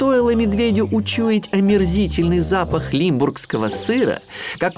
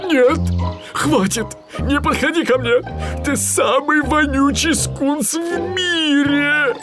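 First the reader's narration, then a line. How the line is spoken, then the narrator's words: Pleading. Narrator (Russian): взмолился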